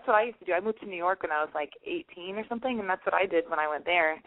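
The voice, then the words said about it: Hoarse, fading voice. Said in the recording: “I feel like I'm losing my voice ... like my voice is getting there”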